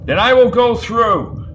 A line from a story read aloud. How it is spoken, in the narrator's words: shouted Grock